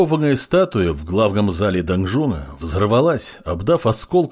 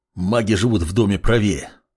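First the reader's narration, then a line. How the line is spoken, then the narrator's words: Short growl. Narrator (Russian): коротко рыкнул Бурану в спину маг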